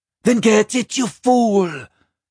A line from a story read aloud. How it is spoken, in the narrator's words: she cried, in a leviathan jig of rage